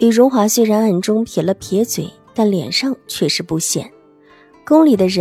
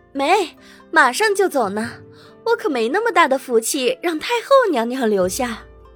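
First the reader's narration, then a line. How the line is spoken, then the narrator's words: Laughing woman. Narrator (Chinese): 妃嫔笑着问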